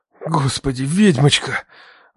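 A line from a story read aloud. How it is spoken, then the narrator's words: Breathless exhale. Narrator (Russian): Выдохнул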